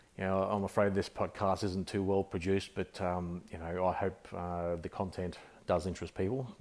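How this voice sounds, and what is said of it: Australian accent. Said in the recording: “I'm an Australian. I guess many would guess with my accent that that I'm an Aussie ... I'm not a very well-spoken Aussie”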